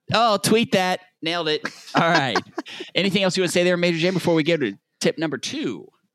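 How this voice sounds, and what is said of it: Southern American accent. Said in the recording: “my Southern accent might mess that up”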